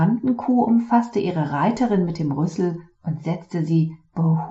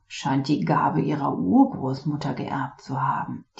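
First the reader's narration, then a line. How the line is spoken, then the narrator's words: Teacher murmuring. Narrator (German): murmelte der Lehrer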